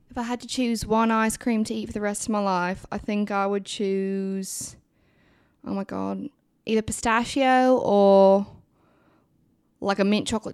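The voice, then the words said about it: Put-on British accent. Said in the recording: “answer this next question in a British. ... Accent.”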